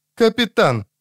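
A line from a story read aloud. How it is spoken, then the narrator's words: Sharp and harsh. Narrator (Russian): резко и жестко проговорила Люсия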